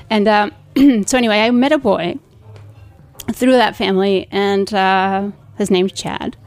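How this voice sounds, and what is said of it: Slight Spanish accent. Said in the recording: “I do have a little bit of an accent, but, you know, it's not so strong Spanish”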